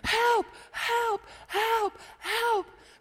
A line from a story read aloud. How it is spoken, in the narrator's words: he starts screaming